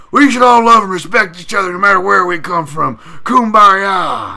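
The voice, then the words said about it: Imitates another person's voice. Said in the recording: “do a Sean Strickland impression”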